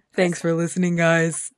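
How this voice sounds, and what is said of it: Deliberately deep voice. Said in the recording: “why my voice got so deep ... Because you made it deep”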